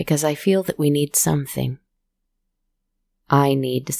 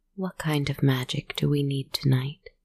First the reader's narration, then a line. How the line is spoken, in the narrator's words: I softly asked my cards